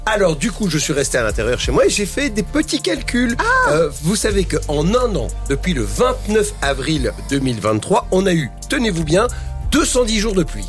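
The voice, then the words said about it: Slight regional French accent. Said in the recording (French): “il y a un petit accent que j'adore”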